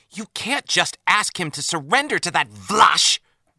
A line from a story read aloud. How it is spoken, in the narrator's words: blurted Ro Laren